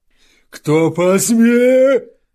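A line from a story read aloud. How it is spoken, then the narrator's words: Yelling. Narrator (Russian): завопил он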